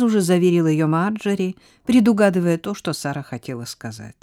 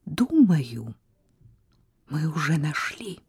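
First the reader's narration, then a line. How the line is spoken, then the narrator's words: Near whisper. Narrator (Russian): произнесла Сара почти шепотом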